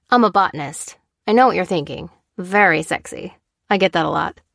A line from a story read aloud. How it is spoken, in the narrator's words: replied